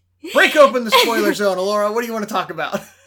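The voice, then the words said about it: Weird salesperson voice. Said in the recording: “You sounded like a weird salesperson.”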